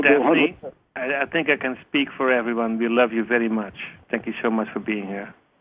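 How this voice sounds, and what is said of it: Dutch accent. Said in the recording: “that wonderful Dutch accent”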